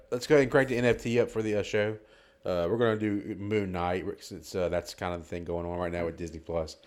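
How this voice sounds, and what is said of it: Congested, stuffy voice. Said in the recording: “I have a little cold, so if, if I sound like drowned tonight”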